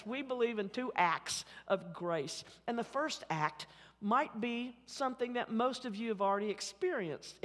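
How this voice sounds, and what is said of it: Oklahoma City accent. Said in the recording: “my Oklahoma City accent”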